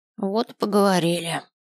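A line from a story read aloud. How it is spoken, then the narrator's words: Sighing ghostly old woman. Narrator (Russian): вздохнула призрачная старушка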